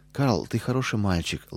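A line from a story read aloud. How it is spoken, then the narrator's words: Tender. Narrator (Russian): ласково сказала она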